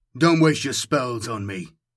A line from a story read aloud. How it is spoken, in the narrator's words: snapped